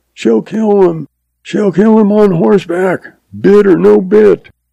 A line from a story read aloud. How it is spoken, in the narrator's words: F yells